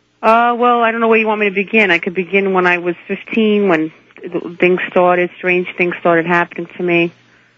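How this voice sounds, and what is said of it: Brooklyn New York accent. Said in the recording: “Boy, can I hear the New York in you. ... I know I have a Brooklyn accent.”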